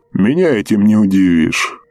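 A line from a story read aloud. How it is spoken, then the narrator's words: Snorting. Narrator (Russian): хмыкнул капитан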